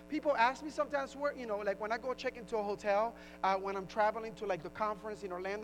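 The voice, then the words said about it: Puerto Rican accent. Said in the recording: “where's your accent from? I said, Puerto Rico.”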